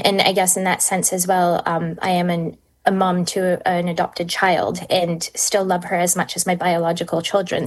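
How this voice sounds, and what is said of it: Canadian English accent. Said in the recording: “your accent is obviously not Kiwi just yet ... you're originally from Canada”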